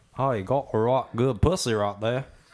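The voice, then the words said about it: Put-on Australian accent, sounds Southern. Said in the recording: “I don't know what accent ... is. Is that like Alabama or where? ... No, it's Australia. ... It's the Alabama of Australia.”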